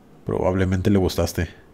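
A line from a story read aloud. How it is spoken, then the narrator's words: Laughing. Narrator (Spanish): Mi amigo Ricardo se rió y le dijo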